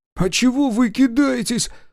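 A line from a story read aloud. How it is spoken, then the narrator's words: Sob. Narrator (Russian): всхлипнул Колька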